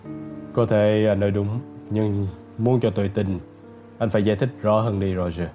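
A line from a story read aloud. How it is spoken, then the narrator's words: Judge's cold dry question. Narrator (Vietnamese): Thẩm phán vẫn lạnh lùng khô khan hỏi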